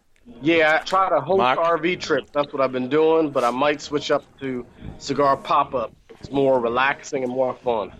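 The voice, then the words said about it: Heavy southern accent, drawl. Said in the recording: “have a crazy southern accent ... you got a really heavy southern accent ... That's an awesome accent ... You have a southern drawl.”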